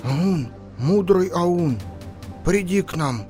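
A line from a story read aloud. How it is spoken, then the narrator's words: Thin trembling old voice. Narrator (Russian): Старый Ор позвал тонким дрожащим голосом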